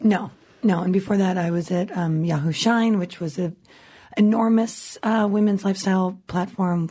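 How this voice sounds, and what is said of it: Husky, sexy-sounding voice. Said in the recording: “That sexy voice ... she normally does have this voice. It's a little bit exaggerated now because she's been promo touring this book.”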